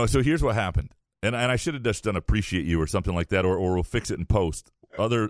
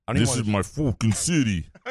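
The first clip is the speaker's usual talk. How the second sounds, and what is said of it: David Ortiz impression. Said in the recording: “your impression, your David Ortiz impression.”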